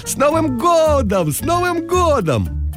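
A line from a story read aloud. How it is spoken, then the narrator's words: Joyful shouting. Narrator (Russian): Милана радостно кричала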